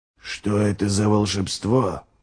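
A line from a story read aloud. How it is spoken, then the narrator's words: Whispered. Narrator (Russian): прошептал Ральф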